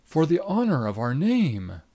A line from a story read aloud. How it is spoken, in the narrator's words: he cried